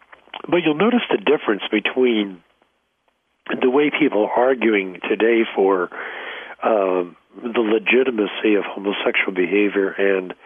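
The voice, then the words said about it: Congested voice. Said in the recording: “I have a cold”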